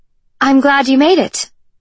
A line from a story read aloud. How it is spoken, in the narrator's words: she called out